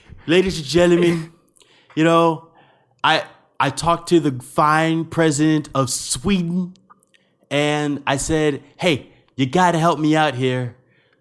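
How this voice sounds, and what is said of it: Imitates another person's voice. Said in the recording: “my Trump impression”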